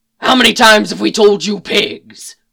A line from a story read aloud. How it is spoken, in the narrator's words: Mick growled